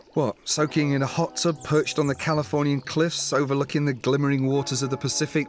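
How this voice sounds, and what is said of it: English accent. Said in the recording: “English. Beautiful accent.”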